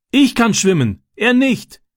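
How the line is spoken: Called back. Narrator (German): rief Francis zurück

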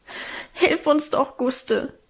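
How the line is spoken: Sobbing plea. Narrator (German): schluchzte Alvine

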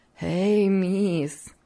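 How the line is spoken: Laughing. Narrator (Russian): все смеясь продолжала Хлоя

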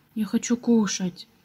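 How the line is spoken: Quiet, hesitant after mustering courage. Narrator (Russian): Пепс наконец набрался мужества и тихо сказал

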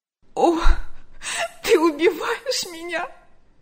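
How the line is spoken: Sobbing. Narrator (Russian): рыдала она

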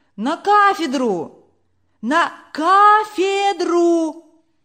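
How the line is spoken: Shouting from audience. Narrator (Russian): кричали из публики

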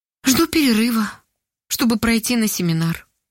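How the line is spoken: Sad reply. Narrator (Russian): грустно ответила Ольга

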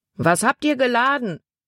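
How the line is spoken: Man calling out. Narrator (German): rief ein Mann

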